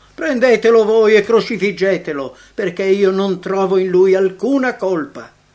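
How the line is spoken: Impatient shouting. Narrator (Italian): spazientito per la loro irragionevole crudeltà, Pilato gridò

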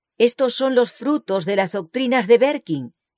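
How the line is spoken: Group exclaiming. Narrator (Spanish): exclamaban

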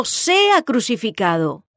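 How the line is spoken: Crowd shouting louder. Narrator (Spanish): ellos gritaban aún más diciendo

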